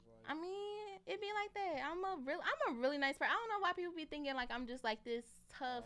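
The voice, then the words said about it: Naturally high-pitched voice. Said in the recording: “my voice is just naturally um kind of high ... my shit is always high”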